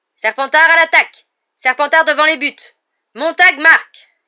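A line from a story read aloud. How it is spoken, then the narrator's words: Growled. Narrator (French): grogna Lee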